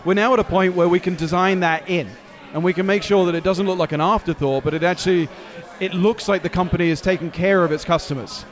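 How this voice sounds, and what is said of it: London English accent. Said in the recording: “I detect an accent. ... Originally London.”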